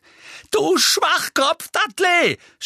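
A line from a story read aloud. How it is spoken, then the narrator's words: Shouting. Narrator (German): schrie Harry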